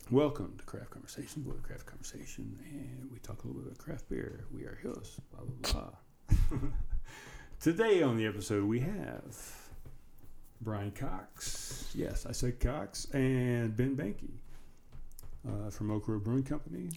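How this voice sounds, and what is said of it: Quiet, low-volume speaking voice. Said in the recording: “that was not loud enough ... I'm doing my under voice”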